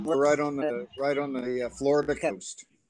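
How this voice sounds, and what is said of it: Southern US (Alabama) accent. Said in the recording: “your accent is very much like what what I you know I explain about Alabama. You know, very southern like ... Oh yes, very southern.”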